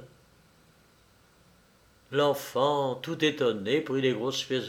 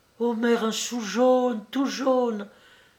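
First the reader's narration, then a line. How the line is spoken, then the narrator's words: Excited exclamation. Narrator (French): s'écria-t-elle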